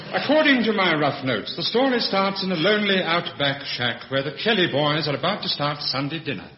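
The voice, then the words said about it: Posh radio announcer voice. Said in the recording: “Brian Wilde with his posh radio voice”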